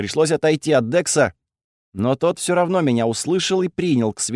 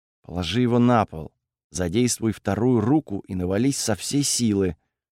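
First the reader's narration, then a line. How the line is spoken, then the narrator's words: Quiet. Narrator (Russian): тихо сказал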